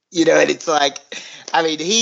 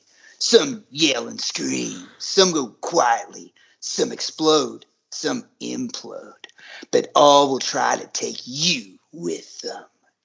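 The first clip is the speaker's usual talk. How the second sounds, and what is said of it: Cool, macho movie character voice. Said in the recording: “he's just trying to be as cool and macho as he possibly can ... doing the voice”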